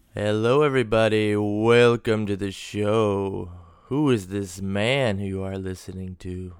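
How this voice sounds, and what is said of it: Hoarse, husky cold-affected voice. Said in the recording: “Who is this sexy voice? ... with a wicked chest cold ... besides the chest and throat ... this sexy-ass voice”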